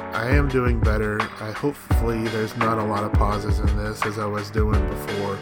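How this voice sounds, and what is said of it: Hoarse, strained voice. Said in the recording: “I can feel it in the back of my throat right now. I'm getting kind of hoarse.”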